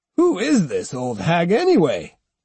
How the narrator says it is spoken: growled one

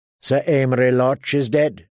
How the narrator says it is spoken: Tyrion said flatly

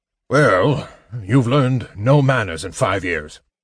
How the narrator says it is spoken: the dwarf grumbled

